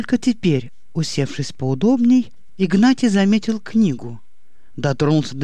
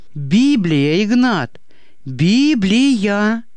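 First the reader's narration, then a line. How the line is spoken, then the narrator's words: Emotional outburst shout. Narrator (Russian): Не сдерживая больше своих чувств, выкрикнул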